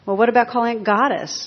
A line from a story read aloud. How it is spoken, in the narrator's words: snorted a Baptist minister